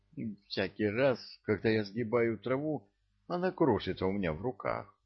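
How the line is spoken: Despairing exclamation. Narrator (Russian): воскликнул, не скрывая отчаяния

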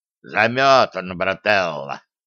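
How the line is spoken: Good-natured growl. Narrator (Russian): добродушно рыкнул академик

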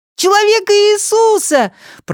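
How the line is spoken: Children shouting. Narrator (Russian): прокричали дети

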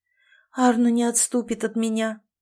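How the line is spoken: Sad sigh. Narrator (Russian): печально вздохнула

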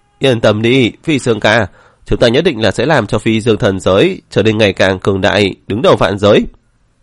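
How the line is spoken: Loud voices together. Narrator (Vietnamese): Viêm Sương cùng với La Mộc lớn tiếng nói

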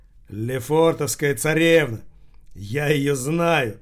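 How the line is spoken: Joyful exclamation. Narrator (Russian): радостно воскликнул Рохля

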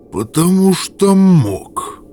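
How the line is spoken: Strangled gurgling voice. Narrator (Russian): ответило существо сдавленным булькающим голосом

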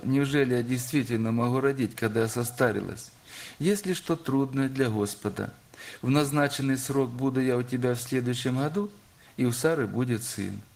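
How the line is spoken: Laughing speech. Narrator (Russian): рассмеялась Сара, сказав

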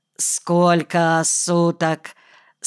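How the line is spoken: Sleepy yawning question. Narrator (Russian): спросил он, сонно зевая

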